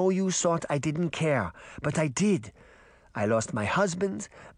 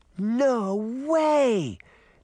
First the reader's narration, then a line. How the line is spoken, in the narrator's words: Daphne cried